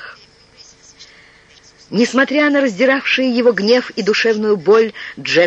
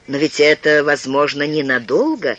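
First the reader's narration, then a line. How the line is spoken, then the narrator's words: Calm. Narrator (Russian): спокойно сказал Филипп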